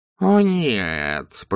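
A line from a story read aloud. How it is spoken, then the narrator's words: Moaning. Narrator (Russian): простонал главный философ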